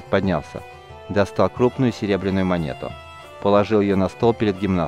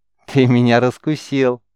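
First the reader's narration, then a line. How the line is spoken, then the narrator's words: Laughing. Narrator (Russian): снова рассмеялся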